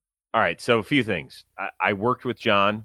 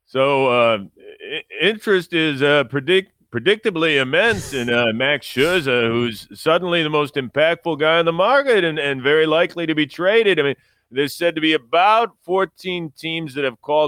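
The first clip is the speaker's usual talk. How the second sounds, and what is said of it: Impression of reporter John Heyman. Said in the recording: “I always did a John Heyman impression ... I am going to read the same tweet as John Heyman”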